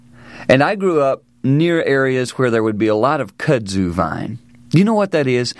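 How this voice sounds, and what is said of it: Southern US accent. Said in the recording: “I grew up down south, as you can tell by my accent”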